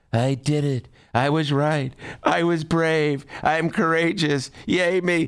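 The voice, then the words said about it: Imitates another person's voice. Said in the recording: “my Donald Trump imitation”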